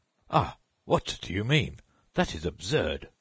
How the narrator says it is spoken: The judge, nonplussed for a moment, exclaimed

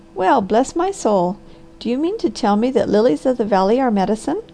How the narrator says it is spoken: The Harvester laughed

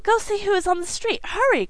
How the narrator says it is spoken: cried the excited mother

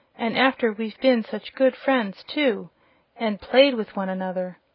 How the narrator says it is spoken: exclaimed a piglet

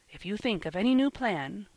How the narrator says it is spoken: whispered Ben behind his hand

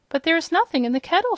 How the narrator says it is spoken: she cried

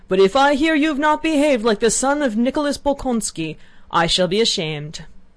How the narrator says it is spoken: in a querulous voice, suddenly shrieked

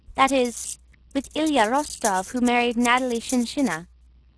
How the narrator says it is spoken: said Anna Mikhailovna

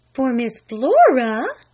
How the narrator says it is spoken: gasped her mother

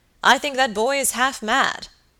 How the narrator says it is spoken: exclaimed the baronet

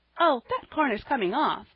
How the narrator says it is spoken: cried Polly cheerfully

